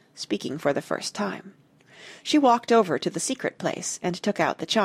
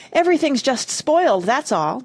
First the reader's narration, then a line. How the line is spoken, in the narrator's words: Jane cried